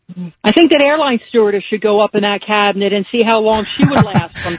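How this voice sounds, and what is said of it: Philadelphia accent. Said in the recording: “This is what Philly sounds like ... your Philly accent”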